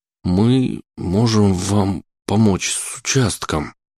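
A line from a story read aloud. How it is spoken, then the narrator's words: Strained, forced words. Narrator (Russian): постарался выдавить из себя слова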